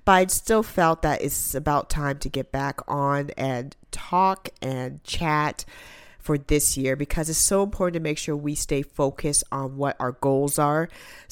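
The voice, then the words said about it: Sick-sounding, slightly congested voice. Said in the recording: “So I do apologize with my voice. I have a little cold”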